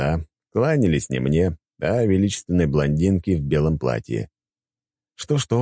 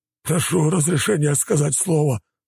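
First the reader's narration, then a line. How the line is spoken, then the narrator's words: Pleading admiral. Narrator (Russian): взмолил адмирал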